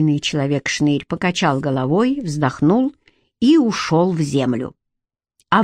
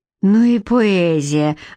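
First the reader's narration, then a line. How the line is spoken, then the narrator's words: Sighing. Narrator (Russian): вздохнула Лидка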